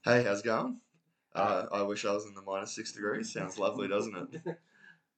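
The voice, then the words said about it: Husky, deep congested voice. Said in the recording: “recovering from some kind of cold, sinusy thing, so he sounds a bit husky, a bit deep, a bit soulful today.”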